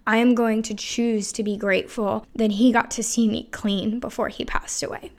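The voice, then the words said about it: Emotional, choked-up voice. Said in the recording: “I'm sure you can hear the emotion in my voice.”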